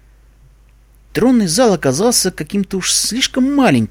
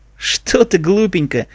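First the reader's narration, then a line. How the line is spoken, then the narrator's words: Laughing. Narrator (Russian): рассмеялась Зикора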